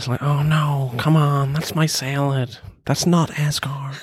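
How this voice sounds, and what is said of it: Imitates another person's voice. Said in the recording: “That's actually a really good Owen Wilson impression... That is spot on”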